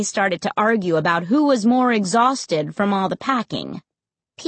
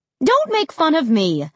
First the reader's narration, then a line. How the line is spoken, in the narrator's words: she snapped